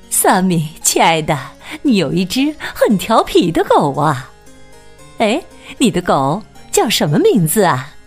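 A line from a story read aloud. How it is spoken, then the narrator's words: Laughing. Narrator (Chinese): 品特太太笑着说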